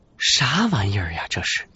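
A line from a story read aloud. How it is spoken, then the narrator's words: Inner muttering. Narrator (Chinese): 内心嘀咕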